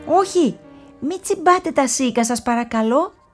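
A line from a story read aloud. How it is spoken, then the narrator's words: Shout, near tears. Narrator (Greek): φώναξε η φράουλα στα πουλιά, ενώ ήταν έτοιμη να κλάψει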